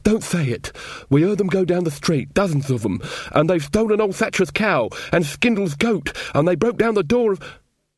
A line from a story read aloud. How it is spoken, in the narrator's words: said Weaver, his eyes full of pleading